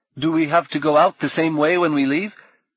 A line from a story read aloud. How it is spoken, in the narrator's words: Rini laughed